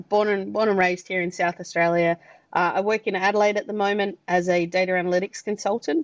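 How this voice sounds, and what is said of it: Australian accent. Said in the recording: “from the accent, you've probably picked up that I'm Australian”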